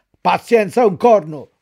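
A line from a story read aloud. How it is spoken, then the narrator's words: Shouted. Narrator (Italian): urlò il padrone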